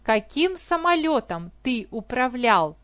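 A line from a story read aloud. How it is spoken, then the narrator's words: Plain. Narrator (Russian): спросил он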